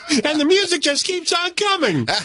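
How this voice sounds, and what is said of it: High-pitched radio DJ voice. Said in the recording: “you'd hear me in my early DJ voice... I'd be way up here... that's what I sounded like when I was doing Top 40 radio”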